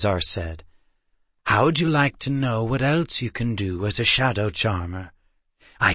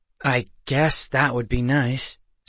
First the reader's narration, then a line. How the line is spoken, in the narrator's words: Seth said hesitantly